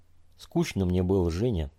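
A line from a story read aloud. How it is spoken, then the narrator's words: Quiet. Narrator (Russian): тихо заговорил Федя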